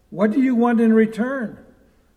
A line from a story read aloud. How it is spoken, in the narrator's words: From the cell of doubtful suspicion, a voice cries out